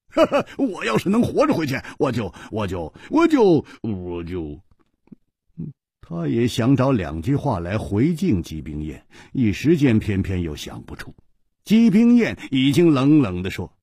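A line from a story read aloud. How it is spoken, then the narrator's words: Hearty laughter. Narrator (Chinese): 胡铁花大笑说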